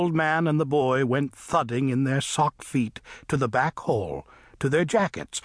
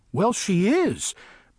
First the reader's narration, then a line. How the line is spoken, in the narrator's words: Paul exclaimed